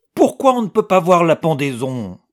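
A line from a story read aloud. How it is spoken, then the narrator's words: Boy's deep growl. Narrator (French): gronda le garçon de sa grosse voix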